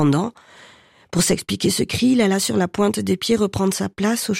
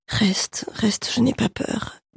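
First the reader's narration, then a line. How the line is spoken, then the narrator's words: Jerky voice. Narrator (French): dit-elle d'une voix saccadée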